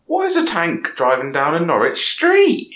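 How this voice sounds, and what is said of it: Exaggerated Norfolk accent. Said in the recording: “I would like to read most of this with a Norfolk accent ... I do a little bit, but I'll trump it on a bit more”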